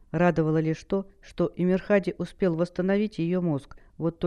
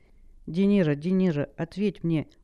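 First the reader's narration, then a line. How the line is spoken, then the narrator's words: Silent pleading thought. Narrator (Russian): мысленно взмолилась Хэл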